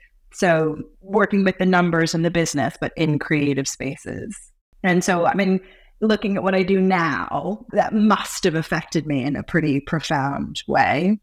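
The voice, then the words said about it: American accent. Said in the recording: “from your accent, for those that don't know, you were born on the other side of the pond”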